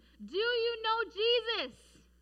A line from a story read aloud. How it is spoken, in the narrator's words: this man, John Harper, he shouted to him